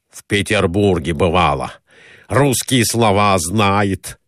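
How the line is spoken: Exclamation. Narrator (Russian): воскликнул Николай Иванович

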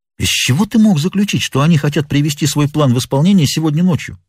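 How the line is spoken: Plain. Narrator (Russian): спросил я его

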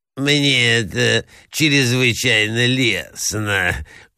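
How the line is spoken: Lisping prince. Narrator (Russian): шепелявил князь

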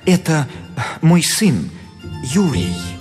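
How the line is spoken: Guilty voice. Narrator (Russian): Репин виноватым голосом отвечал

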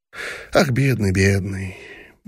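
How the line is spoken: Sighing, thoughtful. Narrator (Russian): вздохнула, промолвив

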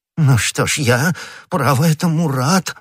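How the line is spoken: Exclaimed. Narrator (Russian): воскликнул господин Бонасье

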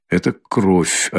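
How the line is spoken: Quiet, as if to herself. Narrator (Russian): отвечала она, наконец, тихо и как будто про себя говоря

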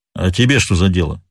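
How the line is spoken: Sullen grumble. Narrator (Russian): угрюмо проворчал гость

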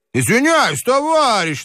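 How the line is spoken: Insolent shout. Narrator (Russian): нагло закричал голос со шлюпки

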